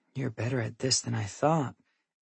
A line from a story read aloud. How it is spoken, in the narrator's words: Ellery says under her breath